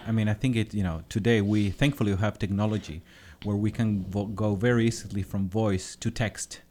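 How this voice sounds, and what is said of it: Strong foreign accent. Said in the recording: “my very hard accent”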